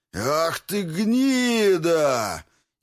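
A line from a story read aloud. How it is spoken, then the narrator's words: Furious roar. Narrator (Russian): яростно взревела Ракес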